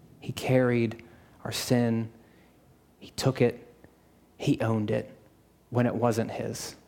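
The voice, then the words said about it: Soothing monotone, slightly raspy voice. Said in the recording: “monotone, I'm very soothing, my voice has a little raspiness into it, it's got a little honey, a little sweetness”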